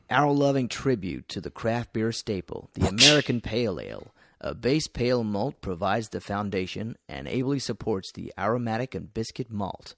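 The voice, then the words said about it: Put-on American accent. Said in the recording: “American accent, please ... Do it in an American accent.”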